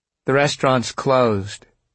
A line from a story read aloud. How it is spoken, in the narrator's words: she said calmly